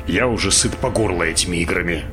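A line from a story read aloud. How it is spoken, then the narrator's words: Muttered. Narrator (Russian): пробурчал Баллард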